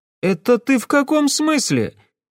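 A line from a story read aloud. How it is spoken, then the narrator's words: Shouted reply. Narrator (Russian): крикнула она в ответ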